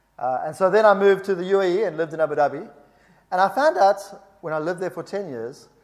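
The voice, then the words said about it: South African accent. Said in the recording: “You may hear from my accent that I'm a little bit different. I was born in South Africa”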